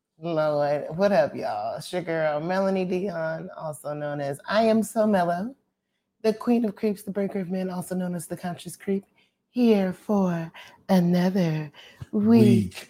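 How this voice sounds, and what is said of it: Sultry sexy voice. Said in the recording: “That was your Marilyn Monroe? ... My sexy voice.”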